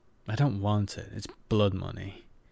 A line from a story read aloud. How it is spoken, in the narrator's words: Kiva growled